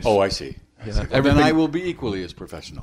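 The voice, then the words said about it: Put-on English accent, grave. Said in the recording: “I am talking in an English accent. ... Your accent has become more grave.”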